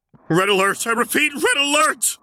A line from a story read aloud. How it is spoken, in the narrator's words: called desperately into the comm